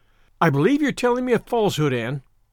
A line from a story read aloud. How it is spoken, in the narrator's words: she said sharply